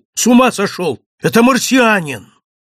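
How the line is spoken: Shout. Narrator (Russian): лось крикнул

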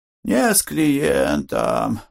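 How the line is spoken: Sighed. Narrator (Russian): вздохнул Кантор

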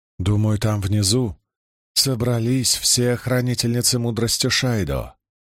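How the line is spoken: Very calm, matter-of-fact. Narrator (Russian): ответила Марлин так спокойно, словно речь шла о ценах на ячмень

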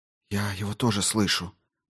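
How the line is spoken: Whispered. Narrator (Russian): прошептала Дженсен

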